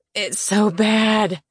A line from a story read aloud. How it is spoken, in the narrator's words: I said on a groan, the liquor burning my throat